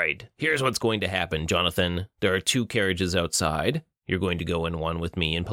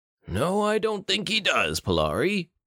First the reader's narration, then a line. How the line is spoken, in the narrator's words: Bruto chuckled